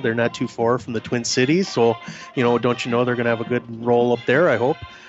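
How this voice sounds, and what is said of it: Put-on Wisconsin accent. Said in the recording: “I'll get my Wisconsin type accent.”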